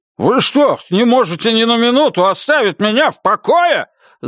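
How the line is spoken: Irritated yell. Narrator (Russian): заорал он раздраженно

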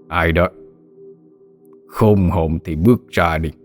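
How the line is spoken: Harsh demanding question. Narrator (Vietnamese): gằn giọng hỏi

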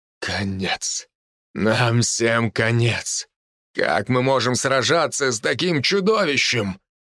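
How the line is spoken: Despairing mutter. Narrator (Russian): бормотал генерал

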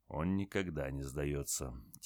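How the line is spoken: Quiet but firm. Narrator (Russian): тихо, но твердо ответил Севастьянов

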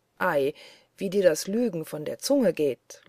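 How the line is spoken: Laughing. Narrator (German): lachte Peter

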